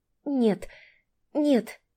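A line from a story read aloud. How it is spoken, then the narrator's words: Moaning more than speaking. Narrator (Russian): Скорее простонала, чем сказала Таня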